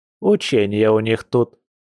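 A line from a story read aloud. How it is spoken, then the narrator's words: Grandmother's snort. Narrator (Russian): хмыкнула бабуля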